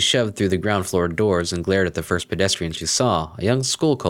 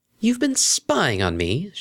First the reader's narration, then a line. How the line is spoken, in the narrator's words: exclaimed